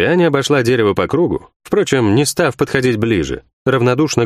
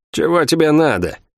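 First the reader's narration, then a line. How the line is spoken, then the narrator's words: Grim, suppressed rage. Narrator (Russian): мрачно спросила Лавиани, с трудом сдерживая ярость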